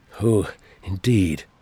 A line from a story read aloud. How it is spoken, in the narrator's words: the Doctor grumbled